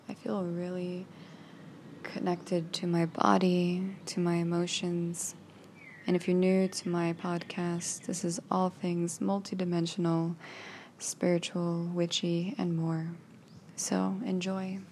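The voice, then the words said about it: Relaxed, raw voice. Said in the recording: “as you can tell from my voice, I am just so relaxed and raw”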